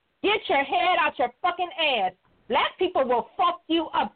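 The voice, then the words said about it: Raised, angry ranting voice. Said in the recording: “If I'm raising my voice, I'm raising because I'm actually glad they coming for your ass”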